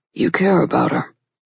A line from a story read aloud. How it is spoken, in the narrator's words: Clay murmured